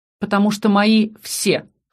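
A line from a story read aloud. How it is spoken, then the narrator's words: Snorting. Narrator (Russian): хмыкнул Аскани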